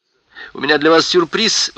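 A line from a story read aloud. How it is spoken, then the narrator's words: Exclaimed. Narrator (Russian): воскликнула Кэтрин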